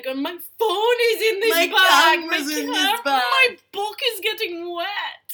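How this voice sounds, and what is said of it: Silly put-on voice. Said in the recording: “That's that stupid voice again.”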